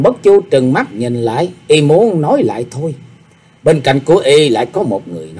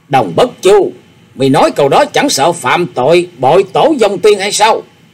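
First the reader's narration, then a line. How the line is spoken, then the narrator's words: Loud scolding shout. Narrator (Vietnamese): Bà lập tức lớn tiếng quát mắng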